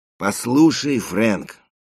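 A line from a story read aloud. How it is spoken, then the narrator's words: Tired. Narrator (Russian): устало проговорил Эрик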